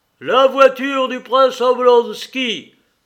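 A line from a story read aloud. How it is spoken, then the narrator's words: Doorman's thundering shout. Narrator (French): cria le Suisse d'une voix tonnante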